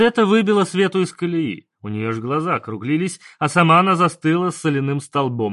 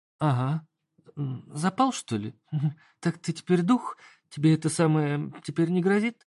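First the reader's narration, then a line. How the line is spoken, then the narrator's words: Quiet secretive whisper. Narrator (Russian): Тихо прошептала Света, чтобы никто не услышал ее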